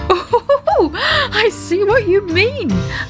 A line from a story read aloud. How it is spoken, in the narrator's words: laughed Daddy Ted